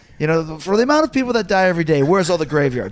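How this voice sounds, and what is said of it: Mixed French and Arabic accent. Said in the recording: “he's got a little bit of that kind of, it's a little bit of a French accent, but it's a little bit Arabic too”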